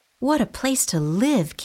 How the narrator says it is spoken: Kitty exclaimed

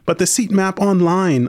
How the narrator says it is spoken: I pleaded

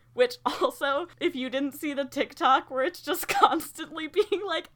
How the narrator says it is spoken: Edward chuckles

